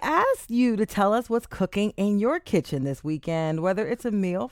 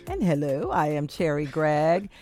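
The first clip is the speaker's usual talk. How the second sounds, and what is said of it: Imitates another person's voice. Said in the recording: “Was that an impression of me? ... That was a little bit.”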